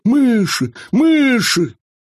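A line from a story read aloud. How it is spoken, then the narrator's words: Sudden distant shout. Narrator (Russian): Вдруг он закричал оттуда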